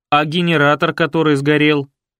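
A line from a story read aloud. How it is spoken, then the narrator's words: Angry question. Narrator (Russian): сердито спросил кто-то из техотдела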